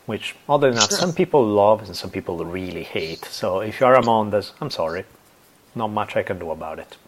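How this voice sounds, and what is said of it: Smooth non-native English accent. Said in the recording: “my extra smoothness in the accent”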